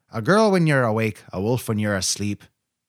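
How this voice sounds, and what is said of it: Put-on Irish accent. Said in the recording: “Which I think is a pretty good Irish accent.”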